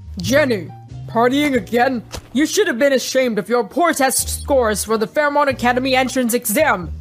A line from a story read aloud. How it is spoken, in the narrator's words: James grumbled